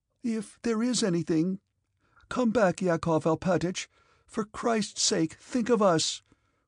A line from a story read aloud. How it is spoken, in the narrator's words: cried his wife